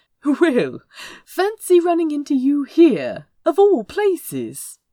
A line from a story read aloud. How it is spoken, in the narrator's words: Azra said brightly, for all the world as if they had met in some city taproom